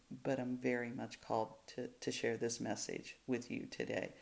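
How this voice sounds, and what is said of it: Slightly hoarse voice. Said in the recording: “my voice is a little hoarse. ... Got a little bit of a sore throat”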